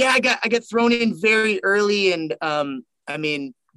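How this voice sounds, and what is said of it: Usual voice. Nothing is said of it.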